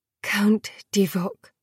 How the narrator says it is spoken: they murmured, heads bowed

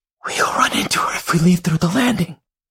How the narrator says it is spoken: Lottie whispers

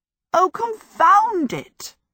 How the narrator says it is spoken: Sophie cried out

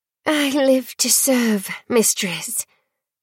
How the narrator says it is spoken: the girl breathed, her voice thick with devotion

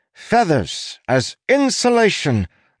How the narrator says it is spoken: the inspector cried

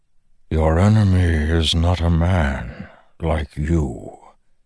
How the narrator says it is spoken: the Stormfather replied, voice rumbling, thoughtful, even frightened

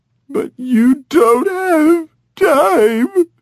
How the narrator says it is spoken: was sobbing now

